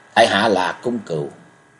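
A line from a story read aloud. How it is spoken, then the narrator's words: Cold. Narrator (Vietnamese): Cung Cừu lạnh lùng đáp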